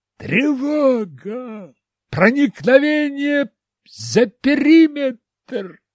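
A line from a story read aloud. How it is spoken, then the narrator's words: Yelled extremely loudly. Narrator (Russian): заорал громче, чем корабельная сирена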